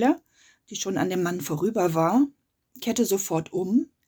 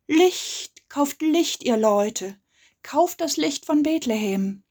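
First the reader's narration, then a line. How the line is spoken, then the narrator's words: Cheerful old man calling. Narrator (German): Er war aber ganz munter, der Alte, und rief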